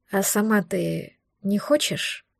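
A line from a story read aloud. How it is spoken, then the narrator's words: Quiet cautious question. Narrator (Russian): Тихо, словно боясь спугнуть ответ, задал вопрос Дар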